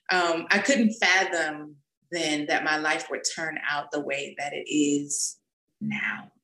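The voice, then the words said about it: Emotional, choked-up voice. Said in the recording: “Wow, I'm getting emotional.”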